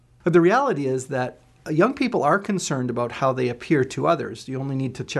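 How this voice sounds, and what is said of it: Usual voice. Nothing is said of it.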